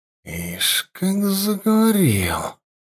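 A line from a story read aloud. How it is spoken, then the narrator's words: Priestess hissing. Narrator (Russian): прошипела жрица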